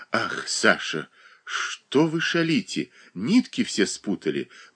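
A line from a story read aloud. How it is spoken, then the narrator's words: Affectionate tone. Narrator (Russian): проговорила ласковым тоном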